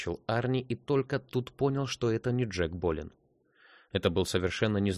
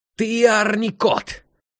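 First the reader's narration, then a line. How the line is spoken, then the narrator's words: Sharp shrill shout. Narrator (Russian): резким визгливым голосом закричал он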